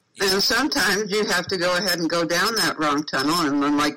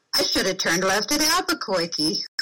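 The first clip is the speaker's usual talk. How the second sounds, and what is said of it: Bugs Bunny cartoon voice impression. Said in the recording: “like Bugs Bunny, you go ... I love your impersonations.”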